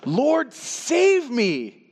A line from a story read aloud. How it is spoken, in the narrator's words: he shouted